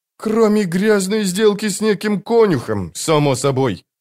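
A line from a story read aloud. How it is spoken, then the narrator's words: Grumble. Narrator (Russian): проворчал Мурильо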